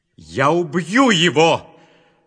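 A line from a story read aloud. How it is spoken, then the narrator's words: Shouting. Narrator (Russian): закричал Исав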